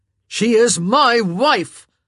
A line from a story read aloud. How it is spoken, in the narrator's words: Simon roared